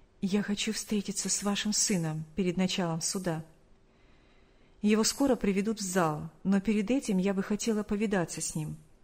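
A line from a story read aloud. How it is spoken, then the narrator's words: Quiet whisper. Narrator (Russian): та тихо шепнула ей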